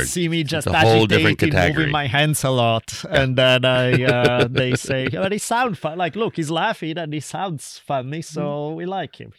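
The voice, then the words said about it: Italian accent. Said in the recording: “the sexy Italian accent”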